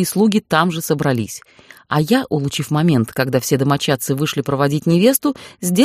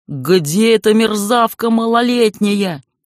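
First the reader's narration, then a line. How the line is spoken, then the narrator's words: Booming yell. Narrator (Russian): Зычно орал мой опекун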